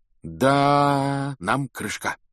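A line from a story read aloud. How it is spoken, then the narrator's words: Dejected, sinking voice. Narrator (Russian): упавшим голосом сказал он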